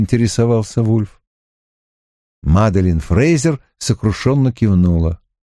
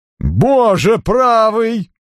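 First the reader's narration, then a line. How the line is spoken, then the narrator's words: Exclamation. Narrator (Russian): воскликнул Натан Трауб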